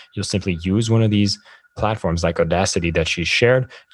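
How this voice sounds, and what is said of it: French accent. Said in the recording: “I need to tone down my French accent a little bit, so else I'll have too many R's as well coming in”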